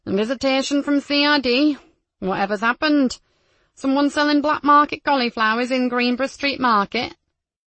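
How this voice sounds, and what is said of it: Deliberately bad local accent imitation. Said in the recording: “bad imitation of the local accent.”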